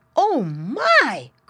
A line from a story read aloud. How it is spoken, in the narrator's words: cried Squinty